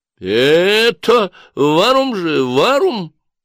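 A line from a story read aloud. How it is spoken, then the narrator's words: Drunken shriek. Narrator (Russian): взвизгнула его пьянка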